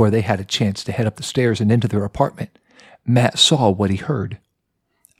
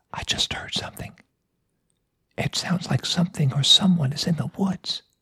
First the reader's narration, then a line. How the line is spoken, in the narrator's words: He whispered to his wife